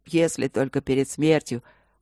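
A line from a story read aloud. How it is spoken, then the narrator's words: Joking snort. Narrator (Russian): хмыкнул, переводя все в шутку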